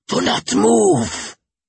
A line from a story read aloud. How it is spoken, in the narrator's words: he hissed